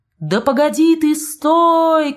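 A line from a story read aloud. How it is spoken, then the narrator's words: Shouting. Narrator (Russian): кричала она Фабрицио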